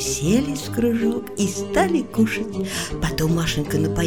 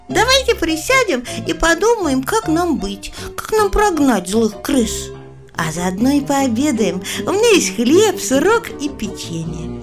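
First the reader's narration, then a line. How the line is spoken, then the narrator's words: Cheerful. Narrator (Russian): Маша весело проговорила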